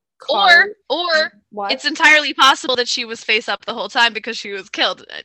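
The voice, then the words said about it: Talking very loudly. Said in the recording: “Don't be yelling at me. ... You're talking very loudly into the microphone.”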